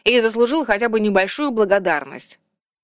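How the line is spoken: Snort. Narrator (Russian): фыркнул Вальдекрис

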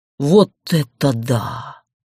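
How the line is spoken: Breathless amazement. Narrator (Russian): выдохнул Гарф

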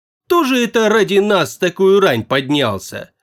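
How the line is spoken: Brisk report, behind door. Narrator (Russian): бодро отрапортовали из-за двери

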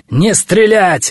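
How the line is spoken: Yelling. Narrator (Russian): вопил он

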